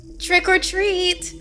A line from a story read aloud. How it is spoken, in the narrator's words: the grim gouger said in a high and enthusiastic voice